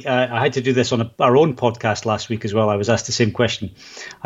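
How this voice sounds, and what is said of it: Scottish accent. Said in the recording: “I can tell where your accent's from ... I am actually from Scotland.”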